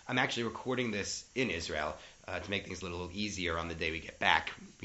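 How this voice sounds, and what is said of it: Slightly hoarse voice. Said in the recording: “a little hoarseness in my voice. I managed to catch a cold”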